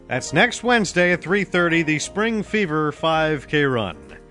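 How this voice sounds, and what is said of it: Old-timey sounding announcer voice. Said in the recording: “I sound a little like an old-timey person”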